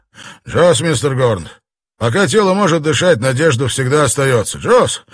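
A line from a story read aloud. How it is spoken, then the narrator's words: Bark. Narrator (Russian): он рявкнул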